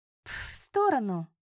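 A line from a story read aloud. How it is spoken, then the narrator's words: Hiss from the side. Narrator (Russian): раздалось шипение сбоку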